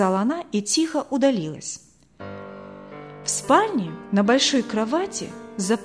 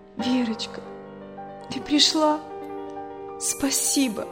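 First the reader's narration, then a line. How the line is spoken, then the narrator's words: Whisper. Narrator (Russian): прошептала она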